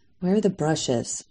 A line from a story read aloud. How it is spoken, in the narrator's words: Mom muttered